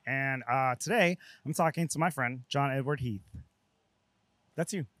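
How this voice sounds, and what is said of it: Raspy, worn-out voice. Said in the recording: “I talk with a raspy voice because I've been talking for like 7 days straight”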